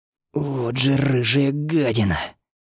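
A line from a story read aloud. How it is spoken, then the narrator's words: Hoarse, choking angry mutter. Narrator (Russian): Прохрипел Валерий себе под нос, задыхаясь от бессильной злобы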